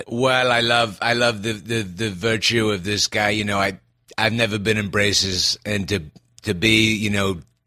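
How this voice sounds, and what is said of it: Imitates another person's voice. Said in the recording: “Trump ... Trump”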